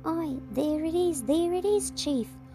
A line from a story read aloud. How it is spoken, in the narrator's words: cried the others